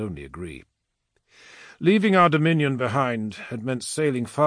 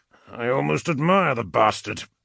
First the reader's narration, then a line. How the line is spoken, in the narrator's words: Abaddon admitted through clenched teeth